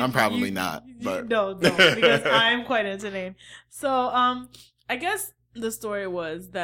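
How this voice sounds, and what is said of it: Usual voice. Nothing is said of it.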